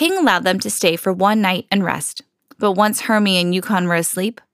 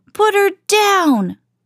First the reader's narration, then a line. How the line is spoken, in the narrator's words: Rudolph cried